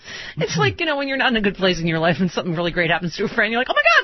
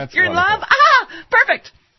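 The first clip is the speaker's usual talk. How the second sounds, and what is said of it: Fake-enthusiastic, high-pitched voice. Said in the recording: “that's only you that says it like that ... Your voice just gets higher”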